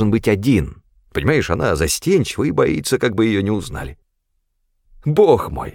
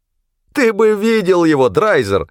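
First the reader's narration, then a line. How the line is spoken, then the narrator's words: Exclaimed. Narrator (Russian): воскликнул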